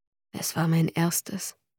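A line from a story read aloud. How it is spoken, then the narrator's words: Low murmur. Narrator (German): raunte Godric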